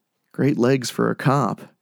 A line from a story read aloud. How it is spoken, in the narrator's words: Kyle said under his breath